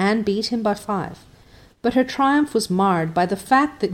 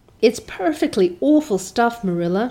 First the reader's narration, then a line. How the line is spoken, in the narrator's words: groaned